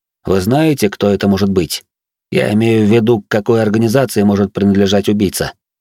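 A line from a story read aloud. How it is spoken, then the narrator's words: Plain question. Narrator (Russian): спросил я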